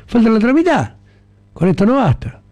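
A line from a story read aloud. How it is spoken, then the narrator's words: Young man's shout. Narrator (Spanish): gritó el joven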